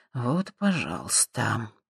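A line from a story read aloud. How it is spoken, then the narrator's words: Muttering under breath. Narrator (Russian): пробормотал Боб себе под нос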